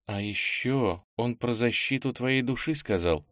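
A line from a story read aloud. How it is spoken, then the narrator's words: Muttering. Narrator (Russian): пробормотал Ира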